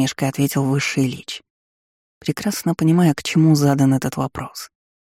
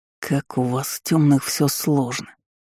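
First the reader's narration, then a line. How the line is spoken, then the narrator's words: Drawled. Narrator (Russian): протянул собеседник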